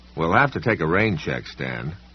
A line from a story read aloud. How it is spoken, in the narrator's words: said